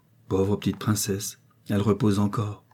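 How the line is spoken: Murmuring. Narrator (French): murmura-t-elle en s'adressant à Sonia

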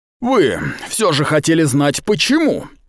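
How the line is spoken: Sudden shout. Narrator (Russian): внезапно крикнул он

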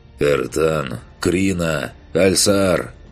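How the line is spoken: Hoarse voice. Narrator (Russian): хриплым голосом произнес

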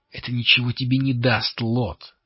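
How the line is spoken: Forced out, strained. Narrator (Russian): выдавила Лири

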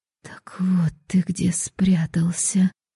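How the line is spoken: Spellbound whisper. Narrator (Russian): завороженно прошептала Антонина

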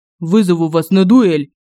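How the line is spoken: Barked. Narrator (Russian): Рявкнул Семён

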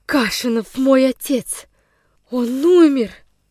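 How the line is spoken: Moaning, trembling with fear. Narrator (Russian): простонала женщина, снова задрожав от страха с головы до ног

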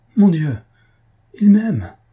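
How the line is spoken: Enthusiastic exclamation. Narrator (French): s'écria Faustine avec un transport d'enthousiasme

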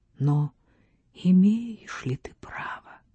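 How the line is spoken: Ghostly inner whisper. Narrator (Russian): что-то шепнуло ему, словно дух-опекун замка

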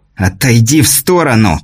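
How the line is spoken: Hiss. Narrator (Russian): прошипел князь

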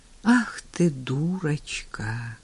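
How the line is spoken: Blissful sigh. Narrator (Russian): блаженно вздохнул он

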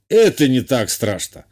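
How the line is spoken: Snort. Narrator (Russian): хмыкнул тот

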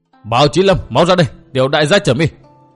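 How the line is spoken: Shouted loudly. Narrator (Vietnamese): Tiểu Nhạn hét lớn

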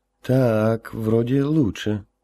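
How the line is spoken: Doubtful drawl. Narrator (Russian): с сомнением протянул Гоша

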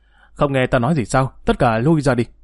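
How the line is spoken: Embarrassed, angry shout. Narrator (Vietnamese): Dương Lăng thẹn quá hóa giận quát

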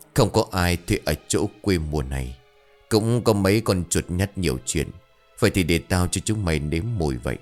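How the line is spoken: Laughing mutter. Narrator (Vietnamese): Vừa cười vừa lầm bầm

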